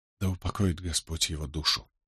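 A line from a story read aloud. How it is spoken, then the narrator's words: Barely audible whisper. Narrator (Russian): едва слышно прошептала она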